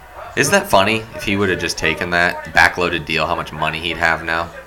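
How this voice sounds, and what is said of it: Rough, strained voice. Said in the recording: “My voice is rough today ... It's hurting today a little bit.”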